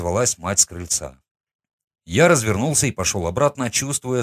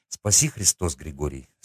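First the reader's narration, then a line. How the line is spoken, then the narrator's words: Plain. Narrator (Russian): сказала девушка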